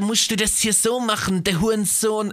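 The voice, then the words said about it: Mock German street slang dialect. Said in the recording (German): “in so einem komischen Dialekt zu reden ... jugendlich cool ... krampfhaften Ghetto Dialekt”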